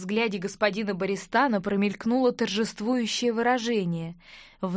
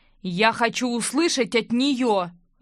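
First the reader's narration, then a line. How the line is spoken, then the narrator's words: Growl. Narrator (Russian): рыкнул Винс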